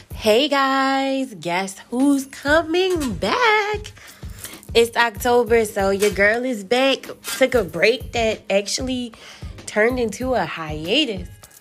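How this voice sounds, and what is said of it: Sick, lower-sounding voice. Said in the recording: “I'm a little under the weather right now, so that's why I sound like an adult.”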